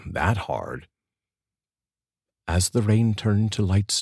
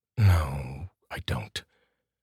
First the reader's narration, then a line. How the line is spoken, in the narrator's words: Tony answered softly